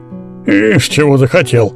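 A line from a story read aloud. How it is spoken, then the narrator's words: Grumbling. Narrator (Russian): проворчал дядя Иван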